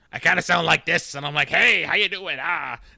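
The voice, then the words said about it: Comic character voice. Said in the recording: “What do you sound like when you're Shecky?”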